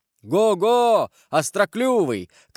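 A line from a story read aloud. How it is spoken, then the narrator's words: Shouting, urging on. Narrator (Russian): кричал Карл, подзадоривая сокола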